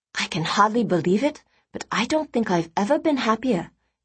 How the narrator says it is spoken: whispered

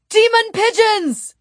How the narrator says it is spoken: Stephen shouted in disgust

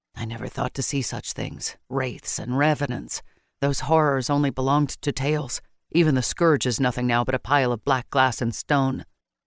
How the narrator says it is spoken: his voice was low as he confessed

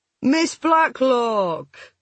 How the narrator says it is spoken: Richard Bulmer called heartily, his voice carrying easily above the roaring of the jets

